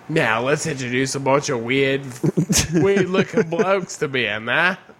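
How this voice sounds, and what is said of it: Put-on Australian accent. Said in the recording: “I'm giving them an Australian accent”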